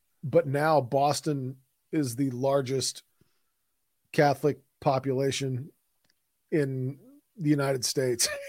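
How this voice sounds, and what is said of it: Strained voice, losing his voice. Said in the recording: “I'm losing my voice already. I don't know if you can tell, but I do not sound good. ... starting out with that lower deep voice”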